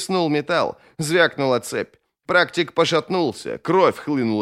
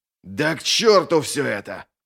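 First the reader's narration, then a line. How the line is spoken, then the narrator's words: Growled. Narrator (Russian): прорычал один из практиков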